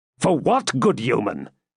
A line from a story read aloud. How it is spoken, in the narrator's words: said Richard somewhat impatiently